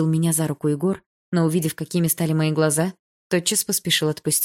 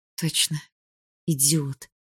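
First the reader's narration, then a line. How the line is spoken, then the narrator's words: Gritted teeth. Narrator (Russian): процедила я сквозь зубы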